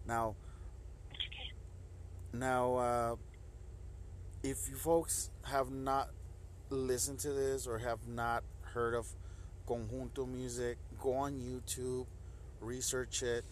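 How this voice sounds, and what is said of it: Rough, strained voice from sore throat. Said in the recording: “I do apologize for my throat. I did get wet outside when it was showering, and it was kind of cold. So I do apologize for my voice.”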